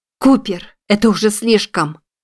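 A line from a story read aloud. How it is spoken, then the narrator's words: Furious exclamation. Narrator (Russian): В ярости воскликнула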